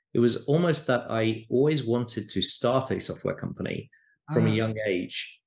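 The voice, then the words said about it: British English accent. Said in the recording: “in the UK, where I grew up, as you can probably tell from my accent”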